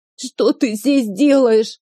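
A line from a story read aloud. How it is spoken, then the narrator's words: Sobbing child. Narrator (Russian): всхлипнул мальчик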